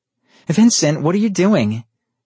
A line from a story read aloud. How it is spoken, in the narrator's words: screamed